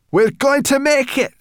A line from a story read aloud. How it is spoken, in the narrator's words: shouted Sorrel